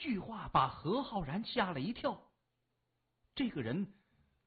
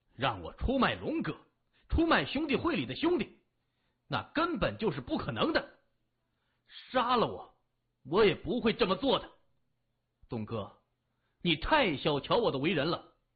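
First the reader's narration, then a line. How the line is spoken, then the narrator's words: Loud, angry, glaring. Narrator (Chinese): 何浩然瞪着眼睛大声说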